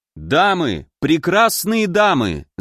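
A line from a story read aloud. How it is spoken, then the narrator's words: Loud, for all to hear. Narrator (Russian): заговорил я громко, чтобы все услышали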